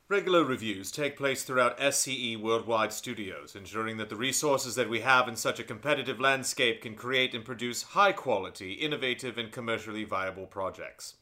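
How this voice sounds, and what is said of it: Dry put-on British accent. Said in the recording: “read this in a dry British accent”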